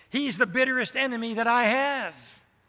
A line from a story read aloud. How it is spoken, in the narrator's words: exclaimed the preacher